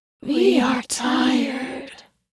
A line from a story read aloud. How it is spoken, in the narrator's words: moaned